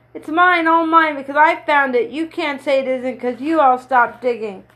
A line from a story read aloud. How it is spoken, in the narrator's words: Then suddenly he began to shout